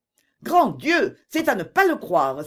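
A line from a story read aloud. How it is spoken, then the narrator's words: Anguished widow's cry. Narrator (French): s'écria la veuve, qui en ce moment était en proie à une véritable angoisse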